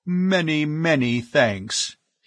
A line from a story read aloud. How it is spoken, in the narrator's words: he intoned